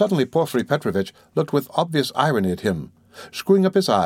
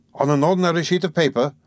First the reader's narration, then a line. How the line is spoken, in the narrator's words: Raskolnikov interrupted eagerly, again interested in the financial side of the question